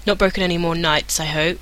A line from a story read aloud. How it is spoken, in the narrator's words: he added dryly